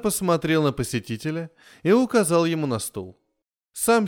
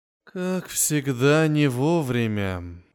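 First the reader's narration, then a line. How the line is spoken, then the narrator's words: Sighing. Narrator (Russian): вздохнул император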